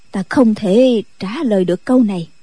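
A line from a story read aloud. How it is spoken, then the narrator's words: Sighing reply. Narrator (Vietnamese): Định Vật thở dài đáp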